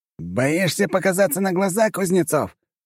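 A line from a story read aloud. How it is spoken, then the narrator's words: Shouted reply. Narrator (Russian): крикнул он в ответ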